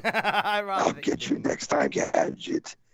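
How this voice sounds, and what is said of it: Death metal voice impression. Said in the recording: “That's a good impression. ... It's my death metal voice.”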